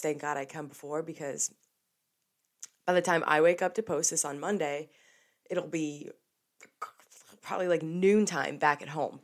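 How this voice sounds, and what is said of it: Congested voice from a cold. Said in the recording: “I'm sure you guys can hear it. I have a little cold ... just going through with the sniffles. Got a little cough.”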